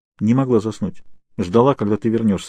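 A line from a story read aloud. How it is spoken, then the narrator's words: Plain. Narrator (Russian): сказала Кейт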